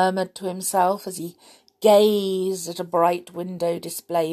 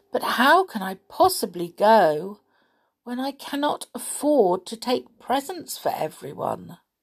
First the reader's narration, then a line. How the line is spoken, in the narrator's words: With a heavy sigh, Mr